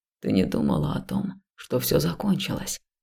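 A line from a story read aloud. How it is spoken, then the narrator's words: Soft, gentle. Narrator (Russian): мягко заметил Илья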